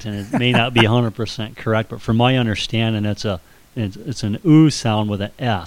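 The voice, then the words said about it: Slight accent. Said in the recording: “your funny accent coming through? ... I do have a bit of an accent”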